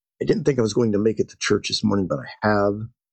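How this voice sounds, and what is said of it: Rough voice, slightly unwell. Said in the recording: “My voice is a bit rough. I was under the weather this past week.”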